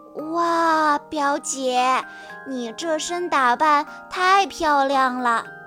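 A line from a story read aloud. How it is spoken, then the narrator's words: Admiring exclamation. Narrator (Chinese): 波比不由得赞叹道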